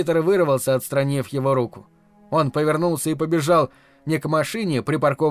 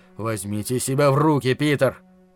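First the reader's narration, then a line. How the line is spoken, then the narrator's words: Growling. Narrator (Russian): Харрисон прорычал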